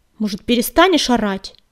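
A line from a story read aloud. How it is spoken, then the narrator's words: Angry question. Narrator (Russian): злобно спросил Дым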